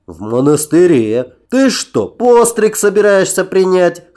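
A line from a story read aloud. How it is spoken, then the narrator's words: Short laugh. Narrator (Russian): хохотнул Нарнах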